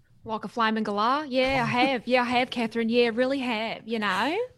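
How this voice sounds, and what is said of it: Hybrid Australian-American accent. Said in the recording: “You are not American, but you sound American ... I'm an Aussie ... I have like a hybrid accent ... sometimes it's Aussie, and then other times it's like more Americanized”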